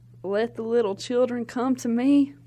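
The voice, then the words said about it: Put-on southern accent. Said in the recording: “Jesus has a southern accent ... So I make it even more ... Can you do Jesus' southern accent?”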